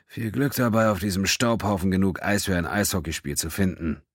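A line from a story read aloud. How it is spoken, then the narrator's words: Muttering. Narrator (German): murmelte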